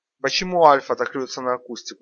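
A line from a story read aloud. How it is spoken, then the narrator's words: Plain. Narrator (Russian): спросил Егор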